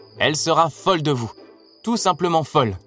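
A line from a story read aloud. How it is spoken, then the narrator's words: Laughing. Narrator (French): dit-il en riant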